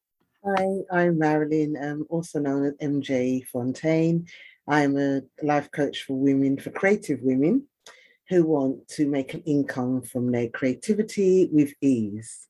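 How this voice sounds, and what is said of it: British accent. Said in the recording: “as you could hear the accent, she's coming all the way to us from the UK”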